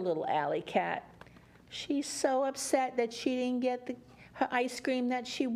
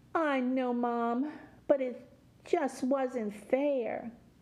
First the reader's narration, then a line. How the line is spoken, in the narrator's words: Alley Cat moaned